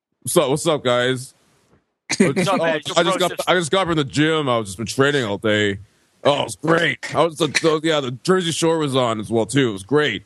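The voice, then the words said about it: Imitates another person's voice. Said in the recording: “Why are you doing an impression of me”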